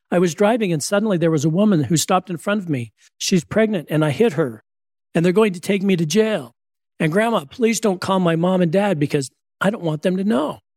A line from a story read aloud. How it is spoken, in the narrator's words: in a frantic voice, scared, saying